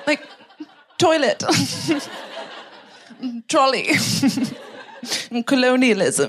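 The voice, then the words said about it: Imitated British accent. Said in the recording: “I love your accent. The way you say some words, like I, I find so delightful.”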